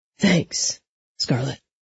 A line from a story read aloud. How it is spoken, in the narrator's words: he said quietly